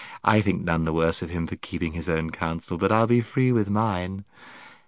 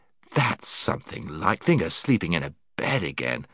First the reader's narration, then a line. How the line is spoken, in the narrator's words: exclaimed Scrub